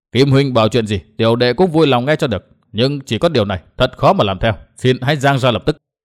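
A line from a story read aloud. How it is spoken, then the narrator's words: Cold wry laugh. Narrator (Vietnamese): Đinh Diệm Sơn cười nhạt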